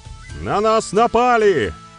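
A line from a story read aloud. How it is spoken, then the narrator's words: Loud messenger. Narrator (Russian): громко произнес вестовой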